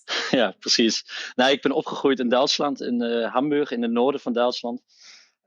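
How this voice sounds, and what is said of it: Foreign accent speaking Dutch. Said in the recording (Dutch): “ik hoor ook een, een buitenlands accent”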